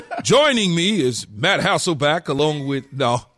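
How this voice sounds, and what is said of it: TV show host voice. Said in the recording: “Give me the hosting voice. Give me the hosting voice. ... I don't really know if I have a hosting voice, but I'll try.”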